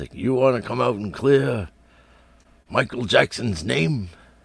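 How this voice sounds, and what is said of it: Imitates another person's voice. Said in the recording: “that was a good impersonation”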